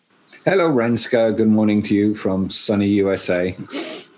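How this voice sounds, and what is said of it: English accent. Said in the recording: “You have an English accent, but you are born in the UK, living in the States.”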